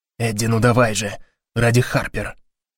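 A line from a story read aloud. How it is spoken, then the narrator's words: Whispered. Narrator (Russian): шепнул Гарри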